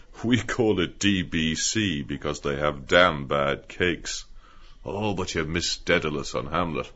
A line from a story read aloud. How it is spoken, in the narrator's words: he said, laughing